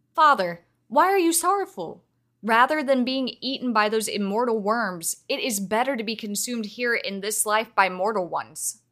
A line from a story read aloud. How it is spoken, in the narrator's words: she retorted sharply